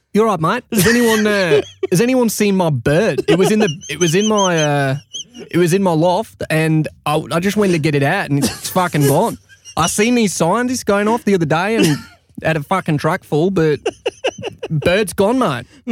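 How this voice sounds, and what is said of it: Put-on Australian accent. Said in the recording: “Australian accent, go. ... Good. That works. Well done.”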